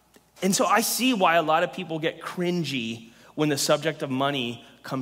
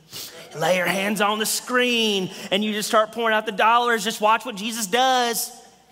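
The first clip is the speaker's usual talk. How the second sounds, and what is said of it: Put-on accent. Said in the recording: “in that accent”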